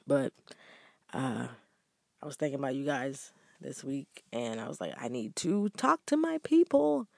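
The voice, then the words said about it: Deep, just-woke-up voice. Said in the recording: “Excuse my voice. I just woke up ... It's a little deep. I hope I don't sound like a man.”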